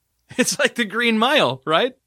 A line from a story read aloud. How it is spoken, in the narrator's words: Sean laughed